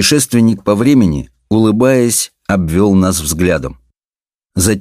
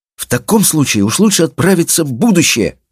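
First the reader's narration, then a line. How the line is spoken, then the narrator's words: Young man's exclamation. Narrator (Russian): воскликнул очень молодой человек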